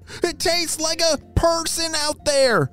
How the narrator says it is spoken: shouted Ralph

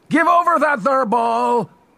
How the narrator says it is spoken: yelled the Losmidians

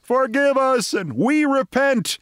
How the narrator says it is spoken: simultaneously, and them screaming

